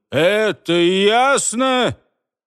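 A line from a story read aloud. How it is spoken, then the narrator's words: Furious, through gritted teeth. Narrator (Russian): почти остервенело добавил, процедив сквозь зубы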